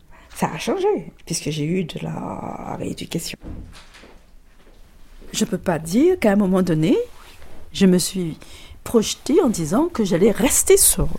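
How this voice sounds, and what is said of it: English-sounding accent in French. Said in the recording (French): “Vous avez comme un accent anglais quand vous parlez.”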